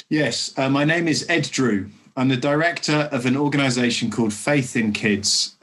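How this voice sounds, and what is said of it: Strong English accent. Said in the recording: “you're about to hear from an English accent ... Very, very English.”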